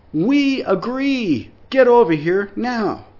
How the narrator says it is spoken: Sam called out

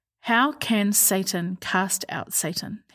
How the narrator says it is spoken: he asked

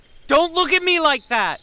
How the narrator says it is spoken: shouted

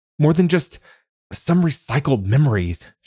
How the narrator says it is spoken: she spat

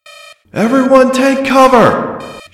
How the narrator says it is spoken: She shouted over the loudspeakers

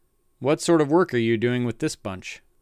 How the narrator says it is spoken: Richards asked

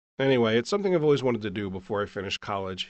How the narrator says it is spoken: he said

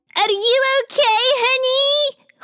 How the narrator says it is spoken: Khawler screamed across the meadow from the bushes

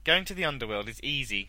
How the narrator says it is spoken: she said

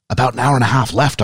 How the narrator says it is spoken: I whispered

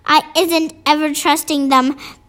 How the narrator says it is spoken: the BFG said

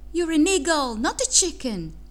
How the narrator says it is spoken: ran down the field shouting

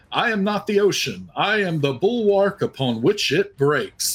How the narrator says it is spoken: he just yells out in a really, really cheesy voice

